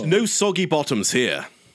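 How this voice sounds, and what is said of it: Put-on British accent. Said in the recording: “I hope that accent wasn't offensive... the language of colonialism”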